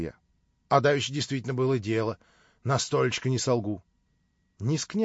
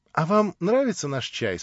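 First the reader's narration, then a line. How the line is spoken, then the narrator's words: Sweet honeyed voice question. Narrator (Russian): спросила медовым голоском Александра Семеновна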